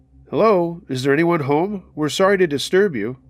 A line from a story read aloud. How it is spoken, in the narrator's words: called out again